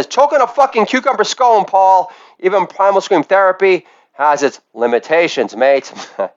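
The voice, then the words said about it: Yelling imitation of another person's voice. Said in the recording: “I did my impersonation ... this is John Lennon ... Yells up at the sky”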